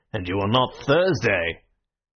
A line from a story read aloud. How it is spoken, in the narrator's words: another anarchist added in a heavier voice